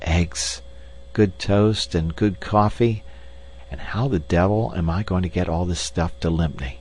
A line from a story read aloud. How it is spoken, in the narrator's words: whispered